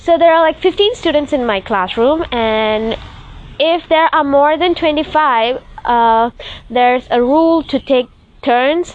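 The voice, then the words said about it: Voice sounds off, like a cold. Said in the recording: “my voice is funny, I don't know why it's like this, because I think it's of the cold weather or the cold I got”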